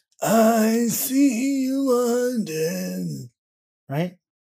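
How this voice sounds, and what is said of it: Sexy, sultry singing voice. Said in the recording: “That was sexy. ... That was sexy voice.”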